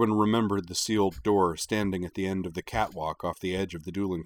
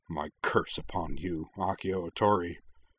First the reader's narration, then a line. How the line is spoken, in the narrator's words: he snarled in his mother tongue